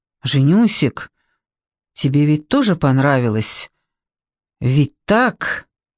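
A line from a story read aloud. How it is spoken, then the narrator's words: Guilty voice. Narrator (Russian): Артем виноватым голосом произнес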